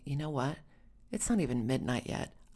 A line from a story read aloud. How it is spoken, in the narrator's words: whispered finally